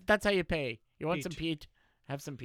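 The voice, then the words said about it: Terrible put-on Irish accent. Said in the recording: “You do a terrible Irish accent”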